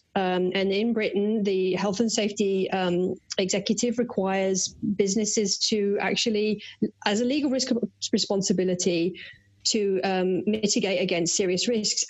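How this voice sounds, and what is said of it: British accent. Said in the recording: “listeners can probably tell from my accent that I'm a Brit”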